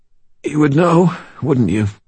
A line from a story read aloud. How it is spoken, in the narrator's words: Guard rasped